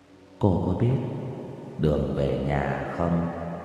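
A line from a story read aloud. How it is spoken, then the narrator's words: Soft ghostly question. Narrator (Vietnamese): Bóng ma hỏi khẽ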